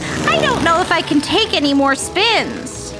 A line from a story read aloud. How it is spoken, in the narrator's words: Ava shouted